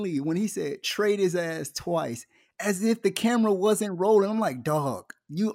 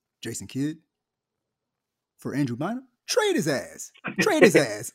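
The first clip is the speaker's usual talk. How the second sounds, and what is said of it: Imitates another person's voice. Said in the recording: “try to do my Kobe voice ... That was a pretty good Kobe impression”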